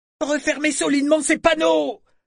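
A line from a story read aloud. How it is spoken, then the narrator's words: Man yelling. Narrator (French): hurla-t-il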